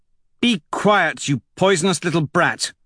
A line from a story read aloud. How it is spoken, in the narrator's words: Mustang snaps